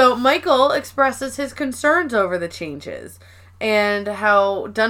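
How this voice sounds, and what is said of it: Usual voice. Nothing is said of it.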